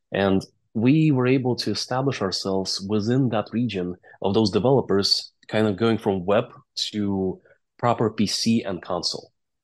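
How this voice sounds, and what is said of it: Non-native English accent. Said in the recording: “you can tell by my accent, right? I speak other languages. I speak Russian and Latvian.”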